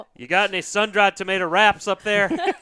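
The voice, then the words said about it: Odd put-on Southern accent. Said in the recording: “I just gave him a southern accent ... That was a very weird accent.”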